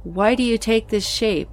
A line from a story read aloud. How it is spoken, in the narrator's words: I asked the entity, in a seemingly fearless tone of voice, hiding my true angst